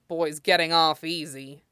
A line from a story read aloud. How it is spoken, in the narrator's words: the officer grumbled